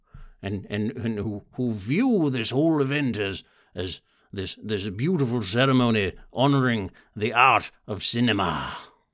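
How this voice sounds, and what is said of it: Silly put-on voice. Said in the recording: “this fucking stupid voice.”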